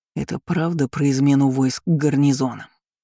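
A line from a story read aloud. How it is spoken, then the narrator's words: Plain. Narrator (Russian): спросил я снова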